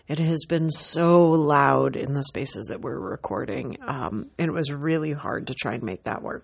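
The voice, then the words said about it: Rough, hoarse voice. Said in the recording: “As you can tell, my voice is really rough.”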